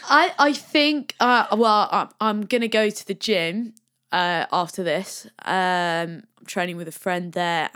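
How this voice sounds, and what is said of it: Australian accent. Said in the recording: “That's the Aussie accent coming out again there.”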